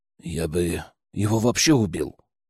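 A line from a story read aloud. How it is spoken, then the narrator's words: Grumbling. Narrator (Russian): буркнул Аи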